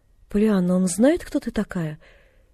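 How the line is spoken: Unexpectedly meek question. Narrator (Russian): неожиданно кротким голосом осведомилась она

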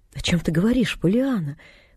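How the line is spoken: Very gentle interruption. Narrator (Russian): очень ласково перебил он ее

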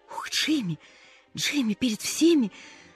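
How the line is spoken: Surprised gasp. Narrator (Russian): От неожиданности выдохнула Полианна

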